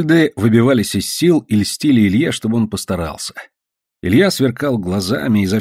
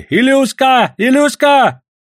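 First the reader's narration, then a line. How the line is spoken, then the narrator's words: Shouting. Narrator (Russian): сзади кричали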